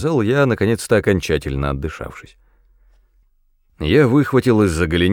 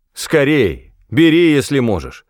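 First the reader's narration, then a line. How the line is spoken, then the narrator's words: Shout. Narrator (Russian): крикнул я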